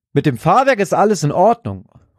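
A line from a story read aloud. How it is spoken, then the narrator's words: Triumphant call. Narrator (German): ruft Stan einen kurzen Moment später triumphierend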